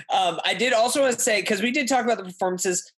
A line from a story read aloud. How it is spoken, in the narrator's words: I shouted to Anya Taylor-Joy